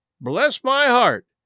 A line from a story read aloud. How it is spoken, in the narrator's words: exclaimed the new arrival